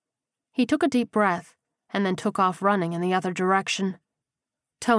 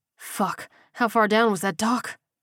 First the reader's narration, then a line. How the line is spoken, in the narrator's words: he muttered frantically